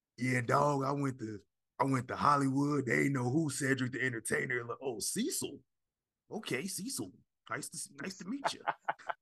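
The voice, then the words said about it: Imitates another person's voice. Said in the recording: “I'm gonna get my Cedric impression.”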